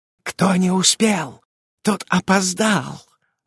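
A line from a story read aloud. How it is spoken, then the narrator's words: Gloating witch's whisper. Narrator (Russian): злорадно шептала ведьма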